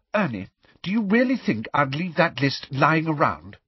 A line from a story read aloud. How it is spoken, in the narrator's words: said Hermione testily